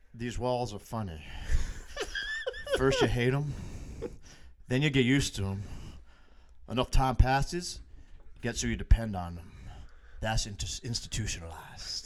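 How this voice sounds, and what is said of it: Imitates another person's voice. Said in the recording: “I can't really do a Morgan Freeman... Good impression.”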